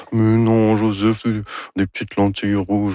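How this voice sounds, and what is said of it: Imitates another person's voice. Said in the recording (French): “Ça, c'est mon imitation de Anne Dorval. ... Très réussi”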